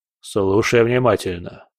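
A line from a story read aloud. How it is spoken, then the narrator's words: Cold voice. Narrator (Russian): сказал он холодным голосом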